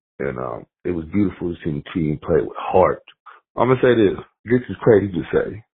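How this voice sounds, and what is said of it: Low, strained, slightly tipsy voice. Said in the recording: “I'm a little inebriated ... I'm kind of talking low because I almost lost my voice.”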